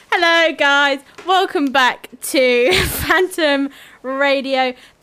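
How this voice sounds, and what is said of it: Shouting loudly. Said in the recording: “I'm shouting because the microphone's on the other half of the studio.”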